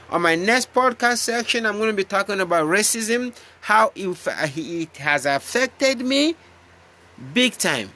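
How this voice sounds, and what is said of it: Speaks with a noticeable accent. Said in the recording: “you get used to my accent”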